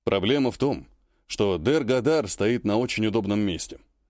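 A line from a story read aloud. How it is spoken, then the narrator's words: Sigh. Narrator (Russian): вздохнул Пассер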